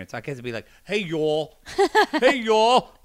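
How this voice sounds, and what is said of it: Bad put-on New York accent. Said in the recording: “that was a terrible New York accent.”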